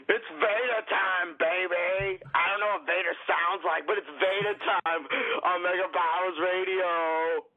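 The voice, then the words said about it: Poor imitation of a wrestler's voice. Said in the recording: “a terrible Vader impression”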